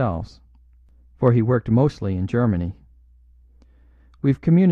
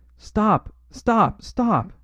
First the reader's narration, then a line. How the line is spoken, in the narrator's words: he cried